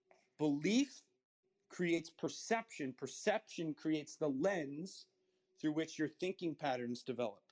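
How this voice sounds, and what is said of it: Slow, deliberate speech. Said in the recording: “I'll say that slowly again.”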